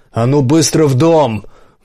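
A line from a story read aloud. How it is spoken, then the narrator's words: Barked. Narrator (Russian): гаркнул на них Дуэйн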